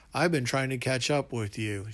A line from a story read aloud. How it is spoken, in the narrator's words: she said with a laugh